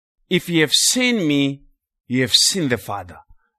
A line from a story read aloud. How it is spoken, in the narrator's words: the Lord said